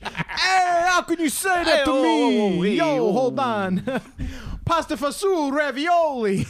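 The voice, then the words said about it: Exaggerated put-on Italian accent. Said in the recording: “you want to be a little Italian ... why do I got this ridiculous accent”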